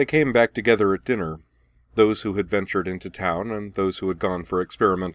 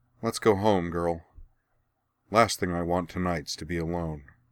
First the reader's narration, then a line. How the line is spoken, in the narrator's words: sighing, Cora said